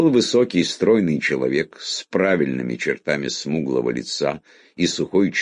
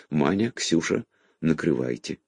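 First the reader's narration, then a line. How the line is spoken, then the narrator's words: Quietly said. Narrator (Russian): негромко сказала хозяйка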